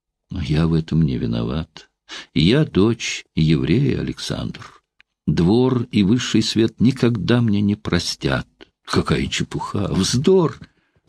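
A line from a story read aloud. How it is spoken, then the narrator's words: Tender. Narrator (Russian): сказал великий князь, ласково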